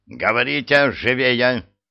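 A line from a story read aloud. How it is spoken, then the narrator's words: Barked. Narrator (Russian): гаркнул Скиннер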